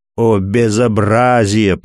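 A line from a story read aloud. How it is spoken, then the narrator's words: Groaning. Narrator (Russian): простонал граф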